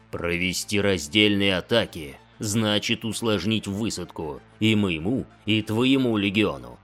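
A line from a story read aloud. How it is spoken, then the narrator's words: Lion's growl. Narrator (Russian): прорычал лев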